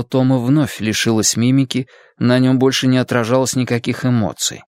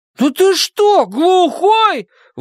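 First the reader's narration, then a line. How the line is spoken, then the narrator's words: Indignant shout. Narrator (Russian): возмущенно крикнул Том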